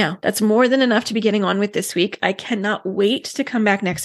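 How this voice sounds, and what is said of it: Usual voice. Nothing is said of it.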